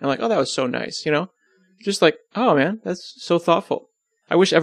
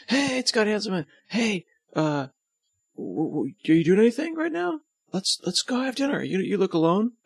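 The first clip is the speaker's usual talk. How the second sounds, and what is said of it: Surfer dude voice. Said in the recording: “I can't do a Norwegian accent, so I'll just make them surfer dudes.”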